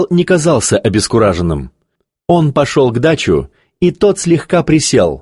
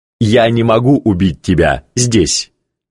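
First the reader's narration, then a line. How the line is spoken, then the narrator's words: Laughing. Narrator (Russian): Шигал рассмеялся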